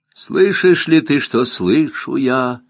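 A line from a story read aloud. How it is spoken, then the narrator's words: Sighing, singing voices. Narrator (Russian): выпевают воздыхающие голоса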